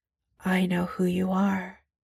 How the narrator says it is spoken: Steve bends closer to his ear so he can whisper above the music

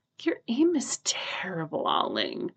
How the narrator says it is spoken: Ajahn sighs

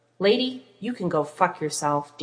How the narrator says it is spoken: Dean growled

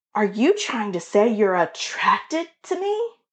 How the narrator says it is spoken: Dylan gasps in fake shock

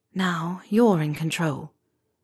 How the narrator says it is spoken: Regulus whispered against his lips

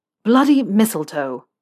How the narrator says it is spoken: Malfoy spat the words out

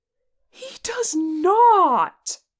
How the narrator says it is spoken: Che gasped

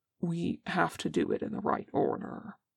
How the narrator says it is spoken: says Jin, as gently as he can

